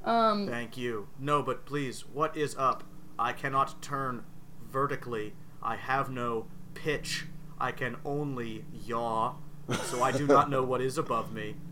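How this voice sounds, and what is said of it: Flat monotone character voice. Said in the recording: “I like the monotone. It's nice.”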